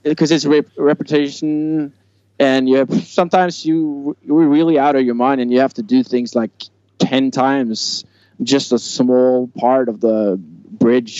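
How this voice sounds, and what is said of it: Norwegian accent in English. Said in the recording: “my dialect, I'm from Norway, so I have maybe a little bit funny way to say some words”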